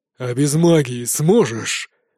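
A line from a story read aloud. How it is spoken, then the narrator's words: Angry growl. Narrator (Russian): злобно рыкнул он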